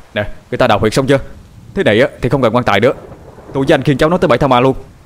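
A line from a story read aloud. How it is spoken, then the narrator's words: Loud shout. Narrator (Vietnamese): Cậu Điền hét lớn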